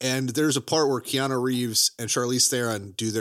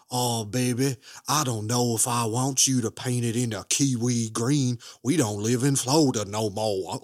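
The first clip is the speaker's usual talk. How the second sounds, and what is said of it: Put-on exaggerated Southern accent. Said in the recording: “terrible Southern accents... You were making his accent more fun than it deserves to be. You turned into Nicolas Cage”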